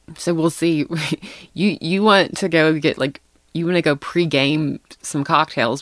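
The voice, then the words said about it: Southern American accent. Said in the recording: “Why do you have an accent? ... Yeah, I have one. ... You definitely do. ... I turn super, super, super, super Southern.”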